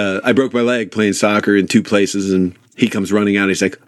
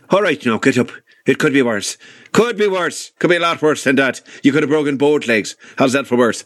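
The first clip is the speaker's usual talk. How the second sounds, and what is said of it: Put-on Northern Irish accent. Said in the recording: “he was from Northern Ireland, so his accent was a little different”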